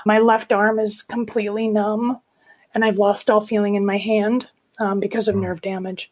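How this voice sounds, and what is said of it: Unusual, impaired-sounding voice. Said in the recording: “my voice is weird because I have a paralyzed vocal cord”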